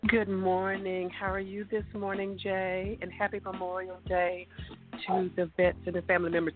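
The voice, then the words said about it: Southern twang accent. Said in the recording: “She's the one that brings that southern twang to the show.”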